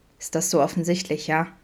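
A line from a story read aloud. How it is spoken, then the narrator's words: Murmured. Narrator (German): murmelte er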